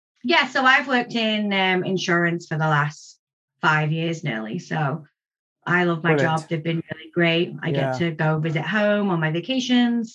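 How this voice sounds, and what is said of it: Slight Canadian twang. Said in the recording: “you are picking up a little bit of a Canadian twang, I can hear.”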